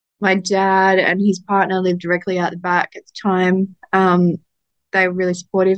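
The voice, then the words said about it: Emotional voice. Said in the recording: “getting emotional”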